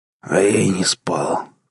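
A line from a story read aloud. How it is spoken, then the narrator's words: Hoarse rasp. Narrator (Russian): прохрипел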